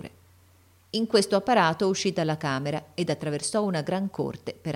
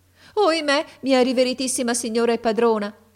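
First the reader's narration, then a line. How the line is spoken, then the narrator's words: Woman exclaiming. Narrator (Italian): ella esclamò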